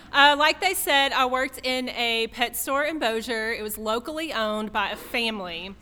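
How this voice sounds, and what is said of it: Thick regional accent. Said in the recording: “when I get nervous, my accent gets real thick, real quick”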